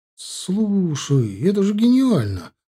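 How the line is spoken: Exclaiming. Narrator (Russian): воскликнул Миша

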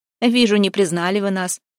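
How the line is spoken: Laughing, younger man. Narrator (Russian): засмеялся младший

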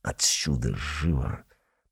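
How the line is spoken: Hissing. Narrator (Russian): прошипел

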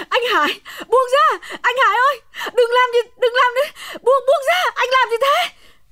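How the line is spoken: Frantic screaming. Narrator (Vietnamese): Hồng gào thét lên

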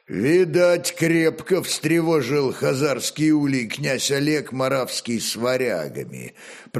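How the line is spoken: Deep bass, burly warrior. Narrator (Russian): пробасил широкоплечий богатырь Притыка

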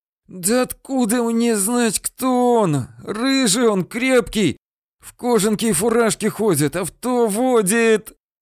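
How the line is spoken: Through teeth, in pain. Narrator (Russian): Сквозь зубы и превозмогая боль, говорил Ефрем

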